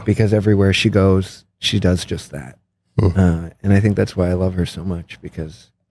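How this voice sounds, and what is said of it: Emotional, choked-up voice. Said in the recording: “oh my God, I'm getting emotional.”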